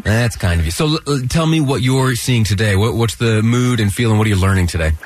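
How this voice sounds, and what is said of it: Congested voice from a cold. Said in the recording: “I have a little bit of a cold, if you can't hear.”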